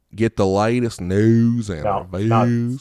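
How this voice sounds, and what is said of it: Weak put-on accent. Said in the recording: “I should read it in his accent. ... Not strong enough.”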